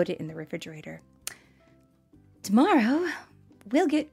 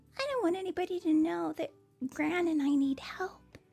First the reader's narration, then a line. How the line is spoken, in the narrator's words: she whispered